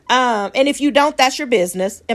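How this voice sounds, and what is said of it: Imitates another person's voice. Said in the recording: “in my Tabitha Brown voice.”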